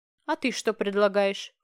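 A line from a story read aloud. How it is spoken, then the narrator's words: Snort. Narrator (Russian): фыркнул Нолан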